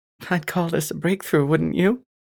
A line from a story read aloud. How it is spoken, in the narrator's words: I laughed